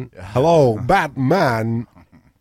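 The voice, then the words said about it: Christopher Walken impression. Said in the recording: “I could be Christopher Walken if you want.”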